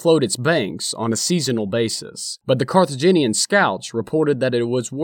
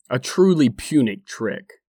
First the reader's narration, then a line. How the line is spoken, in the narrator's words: he says with a somewhat obvious sneer